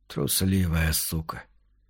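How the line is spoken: Hoarse mutter. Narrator (Russian): пробормотал он хрипло

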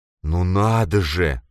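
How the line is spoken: Groan. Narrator (Russian): простонал Фрейль

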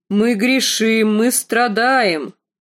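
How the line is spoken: Booming deep loud voice. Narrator (Russian): проговорил он гулким басом, куда громче, чем ее отец

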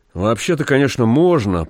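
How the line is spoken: Uncertain speech. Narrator (Russian): проговорил он неуверенно

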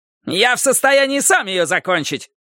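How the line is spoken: Yelling. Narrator (Russian): заорал прокурор

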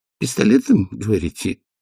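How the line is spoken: Weak repeating voice. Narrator (Russian): слабым голосом повторил доктор Хопкинс

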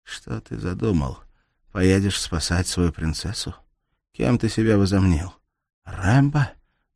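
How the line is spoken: Muffled, through teeth, spitting. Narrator (Russian): Глухо процедила она, сплевывая кровь

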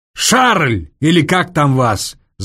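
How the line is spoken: Booming bass yell. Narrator (Russian): зычным генеральским басом заорал Соболев

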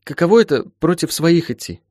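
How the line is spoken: Forced out, embarrassed. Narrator (Russian): выдавила из себя мучительно покрасневшая Волка

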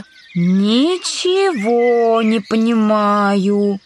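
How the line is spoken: Drawling. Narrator (Russian): протянула Алиса

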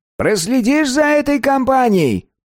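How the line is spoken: Thin high-pitched request. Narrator (Russian): попросил Вати своим тоненьким голосом

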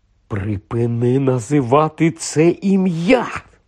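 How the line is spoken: Hissed. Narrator (Ukrainian): зашипів Рон

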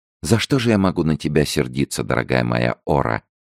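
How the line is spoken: Gentle melodic young female. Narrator (Russian): ответила молодая девушка своим нежным мелодичным голосом

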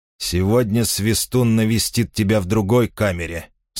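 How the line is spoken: Plain. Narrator (Russian): сказали они ему

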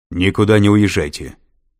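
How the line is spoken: Barked over phone. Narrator (Russian): рявкнула трубка

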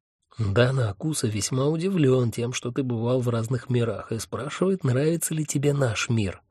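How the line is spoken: Sudden whisper. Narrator (Russian): внезапно зашептал Хехельф

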